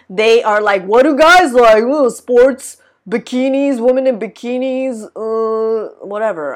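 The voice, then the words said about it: Dumb mocking voice. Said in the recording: “doing a dumb voice”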